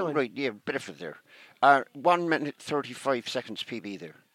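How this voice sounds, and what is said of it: Put-on West Country accent. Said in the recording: “my completely respectful West Country accent”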